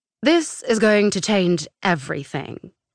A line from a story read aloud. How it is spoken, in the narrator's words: he said in a clear, authoritative British accent